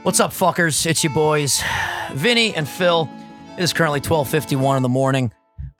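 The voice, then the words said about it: Hoarse, strained voice. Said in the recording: “I have no voice left because I was screaming”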